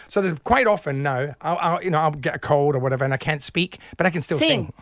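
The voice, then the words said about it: Mixed Scottish and Australian accent. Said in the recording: “You sort of come in and out of a Scottish and Australian accent.”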